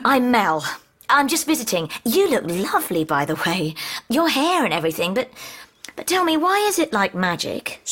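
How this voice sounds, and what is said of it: Southern English accent. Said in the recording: “Southerner. ... Funny accent she's got.”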